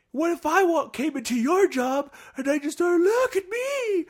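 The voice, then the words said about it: Imitates another person's voice. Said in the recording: “your impression”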